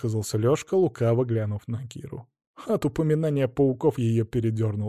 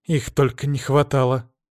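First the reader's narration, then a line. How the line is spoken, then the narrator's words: Irritated snorting. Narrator (Russian): Раздраженно засопела Багира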